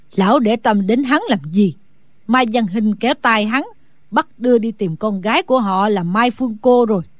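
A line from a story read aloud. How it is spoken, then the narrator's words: Smiling old woman. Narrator (Vietnamese): Sử Bà Bà mỉm cười nói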